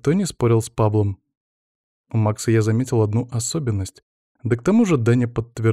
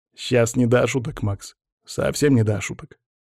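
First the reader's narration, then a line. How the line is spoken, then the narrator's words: Grumbled. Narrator (Russian): пробурчал Павел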